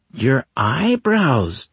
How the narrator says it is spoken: Tiki Bent cried

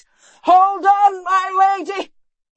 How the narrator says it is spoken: yelled Galen

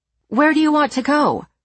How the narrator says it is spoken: She shouts back

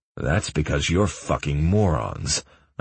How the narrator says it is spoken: I growled

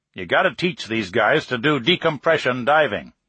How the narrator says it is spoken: Nagel growled

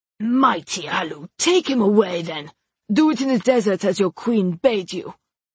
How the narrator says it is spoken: The portly lord rasped

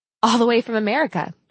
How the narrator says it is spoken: laughed

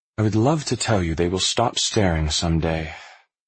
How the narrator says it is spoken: she said with a sigh

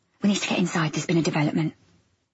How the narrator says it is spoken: she whispered

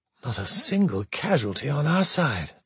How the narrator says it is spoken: de Bertolet breathed, almost reverently

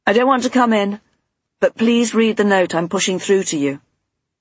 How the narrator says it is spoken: Stephen called out

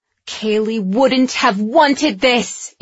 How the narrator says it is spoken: Andy screamed

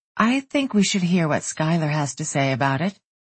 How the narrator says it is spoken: Brooke said in an even, unintimidated tone

